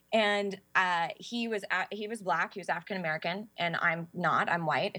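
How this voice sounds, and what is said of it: Valley Girl accent. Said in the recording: “my Valley Girl accent”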